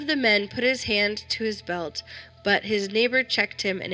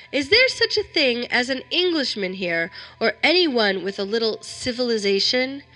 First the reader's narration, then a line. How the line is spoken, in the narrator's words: I felt that I could bear it no longer, and I called out